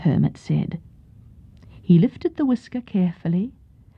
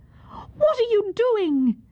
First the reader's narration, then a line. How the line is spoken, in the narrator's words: Yun Ok cried in anger